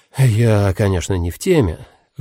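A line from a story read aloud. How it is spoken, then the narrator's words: Sighing. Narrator (Russian): вздохнул Теко Маше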